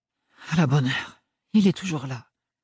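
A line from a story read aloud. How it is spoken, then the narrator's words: Whispered. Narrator (French): chuchota Parrain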